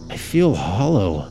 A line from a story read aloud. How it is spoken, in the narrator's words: her voice trembled